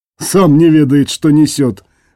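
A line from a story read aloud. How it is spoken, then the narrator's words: Snorting chuckle. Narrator (Russian): хмыкнул Клес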